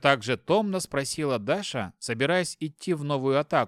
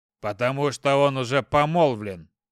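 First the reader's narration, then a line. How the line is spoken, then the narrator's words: Father's voice rings out. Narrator (Russian): раздался голос отца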